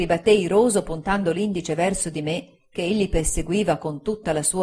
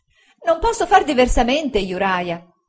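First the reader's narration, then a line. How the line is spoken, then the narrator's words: Exclaimed. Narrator (Italian): esclamò sua madre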